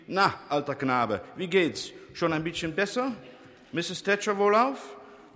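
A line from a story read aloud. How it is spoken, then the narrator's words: Called out. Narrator (German): rief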